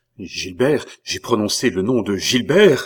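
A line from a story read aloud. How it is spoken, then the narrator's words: Terrified cry. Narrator (French): s'écria André avec un accent tellement empreint d'épouvante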